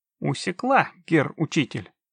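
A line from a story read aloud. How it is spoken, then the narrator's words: Brisk cheerful reply. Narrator (Russian): бодро ответила Синтия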